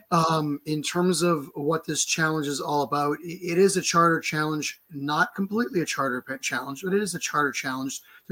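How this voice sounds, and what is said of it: Hoarse, strained voice. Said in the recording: “sorry for my voice being is it is what it is with my voice. I've kind of lost my voice”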